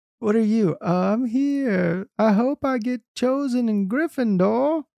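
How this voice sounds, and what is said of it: Faked child voice with accent. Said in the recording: “Why does he have that accent? ... he's trying to fake being a kid.”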